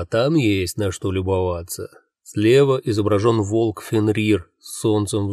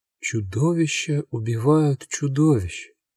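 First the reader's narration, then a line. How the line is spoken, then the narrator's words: Quiet voice. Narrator (Russian): тихо произносит Ольга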